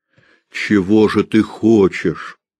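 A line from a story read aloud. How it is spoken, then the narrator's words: Plain. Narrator (Russian): спросил он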